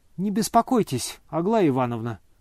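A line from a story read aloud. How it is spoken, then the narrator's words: Calm reply. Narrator (Russian): спокойно отвечал Ипполит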